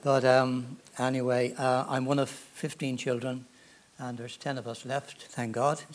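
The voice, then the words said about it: Irish accent. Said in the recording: “I'm from Ireland, as you probably gather from my accent. Not a Georgia one”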